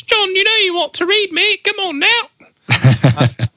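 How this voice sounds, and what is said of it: Put-on working-class British accent. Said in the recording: “they have a British accent ... Great British accent ... that was not an intelligent British accent. That was more like a coal miner's child.”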